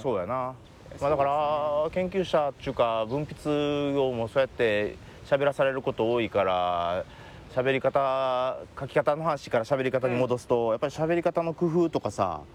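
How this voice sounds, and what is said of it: Kansai dialect Japanese. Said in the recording (Japanese): “関西弁で”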